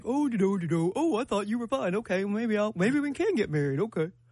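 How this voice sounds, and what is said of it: Imitates a man's voice. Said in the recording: “my man impersonation.”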